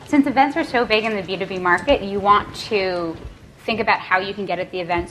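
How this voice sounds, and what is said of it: New York accent. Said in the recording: “there's the New York accent.”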